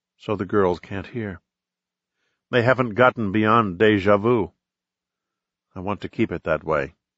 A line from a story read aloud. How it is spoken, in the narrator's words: she whispered